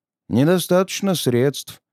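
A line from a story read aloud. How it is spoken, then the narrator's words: Sad sighing young man. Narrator (Russian): печально вздохнул парень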